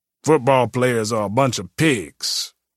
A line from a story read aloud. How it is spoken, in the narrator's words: T-Ray growled